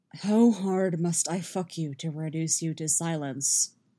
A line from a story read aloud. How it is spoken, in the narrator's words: Geralt growls